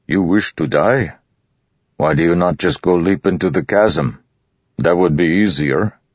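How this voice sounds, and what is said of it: Thick put-on character accent. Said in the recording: “he said with his thick accent”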